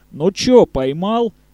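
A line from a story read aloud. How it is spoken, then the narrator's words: Mocking shout. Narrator (Russian): издевательски крикнул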